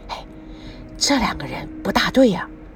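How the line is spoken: Whisper. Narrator (Chinese): 王瑶突然拉住了赵刚，小声的说

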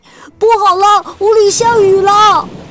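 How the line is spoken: Little mouse crying out. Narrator (Chinese): 小老鼠叫了起来

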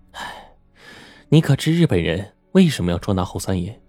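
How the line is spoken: Sighing. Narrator (Chinese): 张小玉 叹了一口气说

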